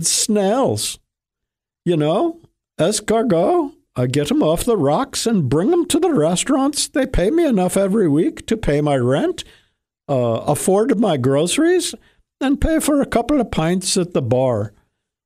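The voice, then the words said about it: Imitated foreign accent, not done well. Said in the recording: “I don't do the accent too great”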